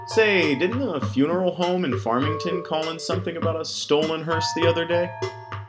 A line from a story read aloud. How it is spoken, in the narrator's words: Springfield had to hold back a chuckle